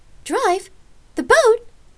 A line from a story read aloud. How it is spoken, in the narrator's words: Lark shrieked, frightened and surprised that Rain would suggest such a thing